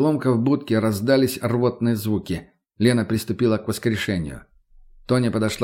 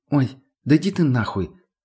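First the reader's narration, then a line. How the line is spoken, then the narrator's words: Calm dismissive. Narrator (Russian): спокойно отмахнулась та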